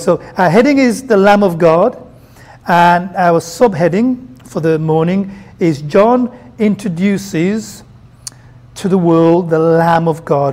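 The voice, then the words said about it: Brummie English accent. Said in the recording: “you'd want them in a Brummy English accent”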